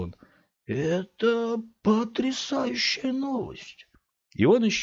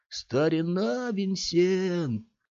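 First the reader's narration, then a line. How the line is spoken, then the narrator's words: Sad, big man. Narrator (Russian): грустно произнес здоровяк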